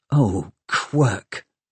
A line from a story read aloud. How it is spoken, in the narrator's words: muttered Tom